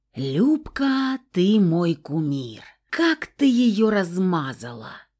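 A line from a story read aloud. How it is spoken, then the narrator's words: Enthusiastic drawl, young girl. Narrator (Russian): Восторженно протянула мелкая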